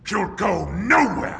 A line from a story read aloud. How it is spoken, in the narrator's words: snarled Power